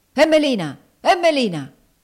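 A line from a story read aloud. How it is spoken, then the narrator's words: Harsh shout. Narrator (Italian): gridò aspramente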